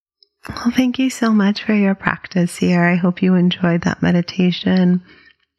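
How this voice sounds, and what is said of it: Raspier voice than usual. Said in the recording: “my voice is a little raspier than usual. ... It's just a little dryness this time of year.”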